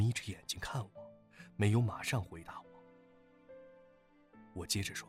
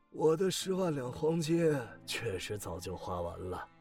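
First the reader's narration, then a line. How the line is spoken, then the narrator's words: Old man sighing. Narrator (Chinese): 老人叹了一口气说道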